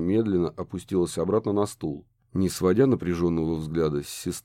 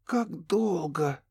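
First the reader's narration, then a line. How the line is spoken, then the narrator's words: Hoarse demanding voice. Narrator (Russian): севшим голосом потребовала она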